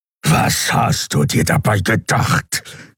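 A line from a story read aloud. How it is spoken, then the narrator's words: Growling. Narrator (German): knurrte Keru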